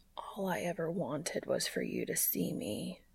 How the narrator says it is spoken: he whispers

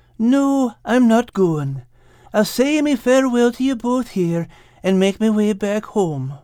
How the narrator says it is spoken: said Al sadly

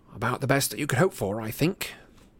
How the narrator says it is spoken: murmured Harry

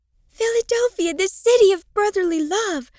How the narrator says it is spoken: Marilyn cried

